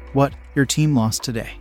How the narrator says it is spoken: I asked with a chuckle

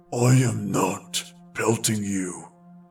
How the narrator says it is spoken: answered the first, growling

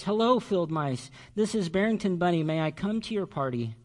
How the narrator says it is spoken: Barrington was sobbing so much that no one heard him

